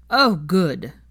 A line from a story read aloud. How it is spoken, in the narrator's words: Blaze exclaimed